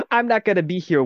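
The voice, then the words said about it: Failed attempt at South American accent. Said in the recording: “I don't actually know how to do a South American accent ... Just pretend that was a South American. Pretend that was a South American accent.”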